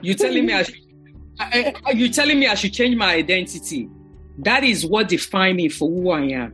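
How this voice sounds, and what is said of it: African immigrant accent in English. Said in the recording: “somebody with an accent ... You still have the accent.”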